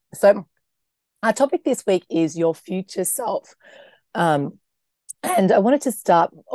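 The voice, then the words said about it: Croaky, hoarse voice. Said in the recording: “my voice is a bit croaky”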